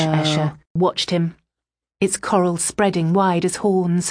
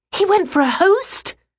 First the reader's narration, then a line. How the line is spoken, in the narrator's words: People were gasping